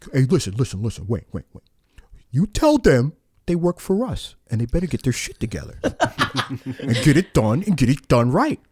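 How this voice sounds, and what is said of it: New York / New Jersey accent. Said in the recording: “from, you know, New York, New Jersey area. So he's got that accent.”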